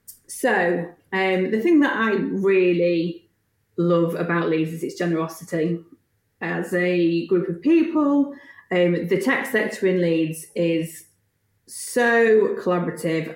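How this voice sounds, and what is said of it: Yorkshire accent. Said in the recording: “I am Yorkshire born and bred, as you can probably tell from the accent.”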